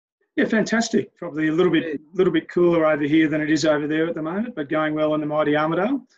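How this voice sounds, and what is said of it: Australian accent. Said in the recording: “you probably noticed the accent. Yes, he's from Australia”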